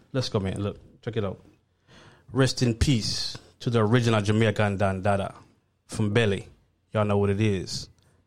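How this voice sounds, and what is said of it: Speaks in a heavier accent. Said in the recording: “You gotta do it in your accent though, man.”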